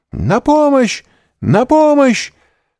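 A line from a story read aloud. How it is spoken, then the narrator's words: Shouting for help. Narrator (Russian): закричала мадмуазель Дармильи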